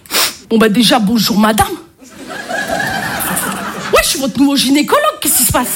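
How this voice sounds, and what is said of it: Marseille accent. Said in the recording (French): “l'accent, je suis marseillaise ... l'accent marseillais se suffit à lui-même ... il y a des accents qui vont pas du tout avec certains jobs”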